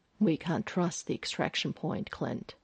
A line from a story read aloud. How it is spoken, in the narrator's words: Phil pointed out softly